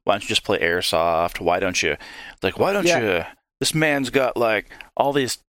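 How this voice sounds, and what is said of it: Put-on Southern American accent. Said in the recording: “I don't know why I'm doing a Southern accent now. That's not nice.”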